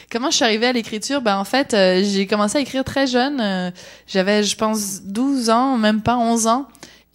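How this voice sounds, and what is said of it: Slight Québécois French accent. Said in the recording (French): “je suis née en France de parents québécois, ce qui explique mon petit accent dont j'entends parler à peu près tous les jours”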